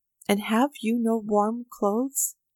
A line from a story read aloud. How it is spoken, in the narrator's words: Avdyich heaved a sigh and said